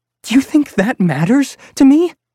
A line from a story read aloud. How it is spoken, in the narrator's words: Mom shouted